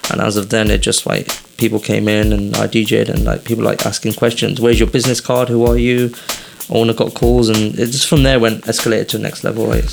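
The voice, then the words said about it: British English accent. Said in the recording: “British accent ... English accent ... coming from England”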